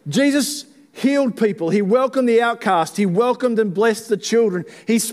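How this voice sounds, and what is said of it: Usual voice. Nothing is said of it.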